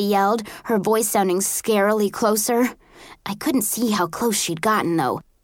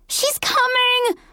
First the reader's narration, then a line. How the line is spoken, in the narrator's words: Rosemary screamed hysterically